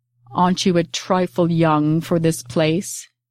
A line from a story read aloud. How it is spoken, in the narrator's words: asked in a deep voice, mellow like a tuba, the tongue lazy on the consonants